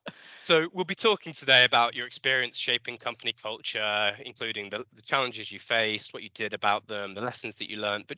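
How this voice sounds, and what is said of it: Slightly out of breath. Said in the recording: “I'm slightly out of breath”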